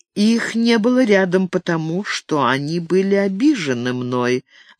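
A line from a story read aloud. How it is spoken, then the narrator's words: Plain. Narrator (Russian): ответила она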